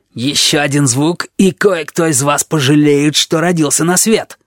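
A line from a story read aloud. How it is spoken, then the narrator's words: Hissing. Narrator (Russian): прошипел он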